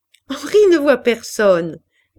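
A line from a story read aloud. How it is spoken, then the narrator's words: Laughing. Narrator (French): dit Pauline en riant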